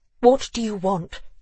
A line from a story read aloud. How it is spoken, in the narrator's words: asked, her voice steely